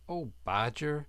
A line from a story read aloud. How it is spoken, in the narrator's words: cried the Rat